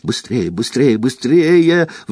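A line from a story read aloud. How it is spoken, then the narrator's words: Pleading. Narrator (Russian): взмолилась Гермиона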